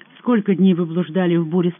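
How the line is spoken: Plain question. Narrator (Russian): спросил он

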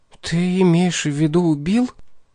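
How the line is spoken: Very quiet. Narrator (Russian): сказала очень тихо

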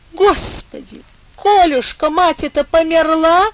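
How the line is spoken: Old woman sobbing. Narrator (Russian): всхлипнула старуха

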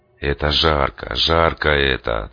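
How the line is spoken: Solemn announcement. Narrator (Russian): торжественно объявил я

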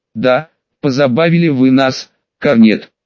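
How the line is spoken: After laughing. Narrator (Russian): отсмеявшись, сказал командир полка полковник Раух

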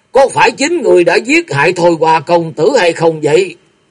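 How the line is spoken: Cold shout. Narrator (Vietnamese): lạnh lùng quát lên

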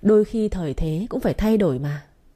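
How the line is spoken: Laughing. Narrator (Vietnamese): Hắn ta nghe thế lại bật cười

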